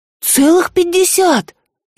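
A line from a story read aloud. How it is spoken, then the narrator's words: Frightened interruption. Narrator (Russian): испуганно перебила Рыска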